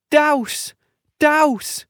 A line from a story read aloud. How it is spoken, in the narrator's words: cried, trying to make her voice sound like a boy's